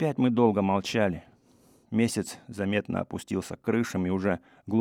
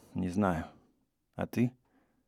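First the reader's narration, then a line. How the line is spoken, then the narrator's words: Quiet reply. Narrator (Russian): Я тихо ответил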